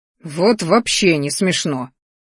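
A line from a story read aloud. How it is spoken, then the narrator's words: Growled. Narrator (Russian): рыкнул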